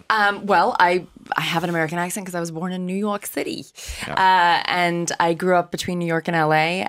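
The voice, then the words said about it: American accent. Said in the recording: “People will be struck by your American accent ... you sound like an American”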